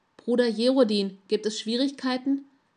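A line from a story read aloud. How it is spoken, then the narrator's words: Broad-shouldered guardswoman calling. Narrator (German): rief eine breitschultrige Gardiste mit rotem Haar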